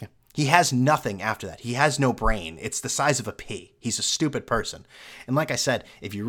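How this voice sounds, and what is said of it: Usual voice. Nothing is said of it.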